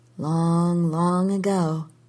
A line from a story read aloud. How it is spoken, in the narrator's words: she murmured